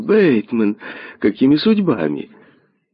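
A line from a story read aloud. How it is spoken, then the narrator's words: Joyful exclamation. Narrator (Russian): Эдвард радостно вскрикнул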